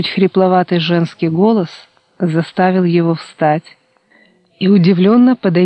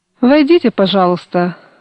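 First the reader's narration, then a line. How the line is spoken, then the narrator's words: Barked loudly. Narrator (Russian): гаркнул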